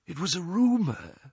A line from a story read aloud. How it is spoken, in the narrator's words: whispered Ollivander